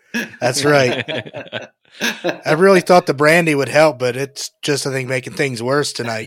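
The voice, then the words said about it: Raspy, higher-pitched, losing voice. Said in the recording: “why is your voice a little higher pitch? ... losing my voice a little bit ... raspy.”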